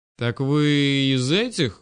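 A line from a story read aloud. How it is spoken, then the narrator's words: Drawled. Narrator (Russian): протянул я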